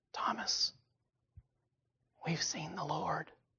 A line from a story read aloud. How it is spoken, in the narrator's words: somebody probably whispers